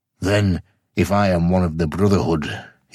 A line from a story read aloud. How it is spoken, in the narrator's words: he grunted